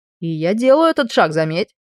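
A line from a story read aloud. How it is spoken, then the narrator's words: Wry snort. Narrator (Russian): хмыкнул Брайан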